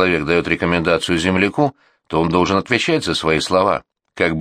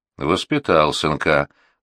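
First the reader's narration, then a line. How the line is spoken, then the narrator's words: Muttering. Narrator (Russian): буркнул Петруха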